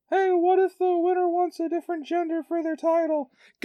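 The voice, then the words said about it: Squeaky high-pitched voice. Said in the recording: “squeaky voice”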